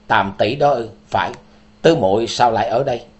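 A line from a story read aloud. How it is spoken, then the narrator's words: Cold laugh. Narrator (Vietnamese): Tứ Tiên Tử buông tiếng cười lạnh lùng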